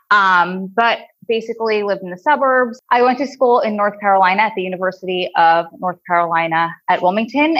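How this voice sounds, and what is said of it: New Jersey accent. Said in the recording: “my crazy New Jersey drawl accent that I can't get rid of and I hate ... Long Island, which that accent is a million times worse”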